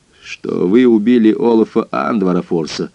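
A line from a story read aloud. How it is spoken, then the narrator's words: Grim. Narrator (Russian): мрачно сказал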